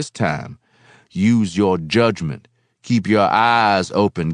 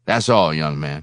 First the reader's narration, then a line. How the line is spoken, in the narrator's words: he said, his tone abrupt, official